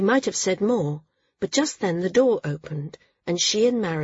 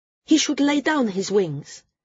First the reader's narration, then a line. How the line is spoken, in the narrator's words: Srella blurted suddenly